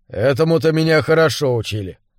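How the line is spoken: Gloomy reply. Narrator (Russian): мрачно отозвался Джеральд

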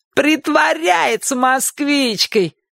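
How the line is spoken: Shouted. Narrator (Russian): крикнул Шурик

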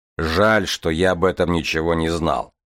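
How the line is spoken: Grumbling. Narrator (Russian): проворчал Железовский

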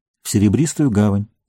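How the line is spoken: Calm. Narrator (Russian): спокойно ответил Фродо

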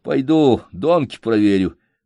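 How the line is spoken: Sighing. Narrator (Russian): Вздохнул и сказав

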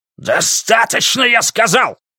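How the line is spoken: Bark. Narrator (Russian): рявкнул Дули

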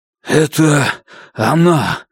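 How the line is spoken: Hoarse muttering to oneself. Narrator (Russian): хрипит он таким тоном, будто разговаривает сам с собой

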